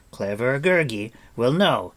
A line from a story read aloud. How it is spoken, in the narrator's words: he cried